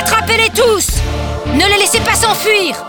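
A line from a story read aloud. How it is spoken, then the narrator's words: Shouting to soldiers. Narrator (French): cria-t-elle aux soldats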